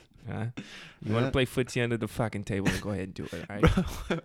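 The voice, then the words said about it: Put-on East Coast accent. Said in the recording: “That sounds like an East Coast accent now.”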